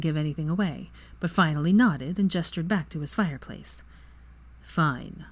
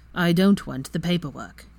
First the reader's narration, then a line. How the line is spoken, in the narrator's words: Kingsley said in a firm tone